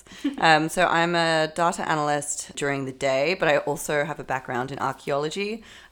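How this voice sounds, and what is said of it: Australian accent. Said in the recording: “As you can probably tell from my accent, I'm Australian.”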